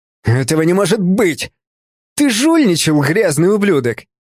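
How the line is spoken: Loser's sudden roar. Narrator (Russian): Внезапно взревел проигравший

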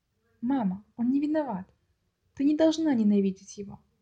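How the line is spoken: Gentle. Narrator (Russian): Один из братьев мягко сказал

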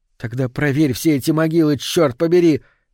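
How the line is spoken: Almost shouting. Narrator (Russian): Гейл едва не кричала

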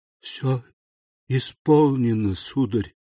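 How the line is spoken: Muffled, throat-tearing rasp. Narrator (Russian): сказала с глухим хрипом, который словно разрывал ей гортань

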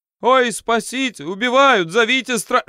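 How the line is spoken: Panicked yelling. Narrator (Russian): перестав скулить, человек снова заорал

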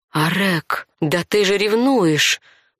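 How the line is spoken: Shocked, breathless. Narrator (Russian): Выдохнула потрясенно

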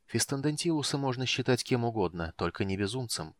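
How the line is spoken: Quiet reply. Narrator (Russian): тихо отозвался Рейслин

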